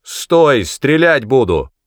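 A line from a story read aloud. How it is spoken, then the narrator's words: Shout. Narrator (Russian): Кто-то крикнул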